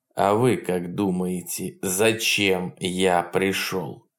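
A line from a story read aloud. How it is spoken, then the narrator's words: Ringing voice. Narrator (Russian): звенящим голосом ответил Полунин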